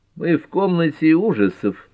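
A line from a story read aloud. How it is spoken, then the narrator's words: Gloomy statement. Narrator (Russian): мрачно констатировала Лола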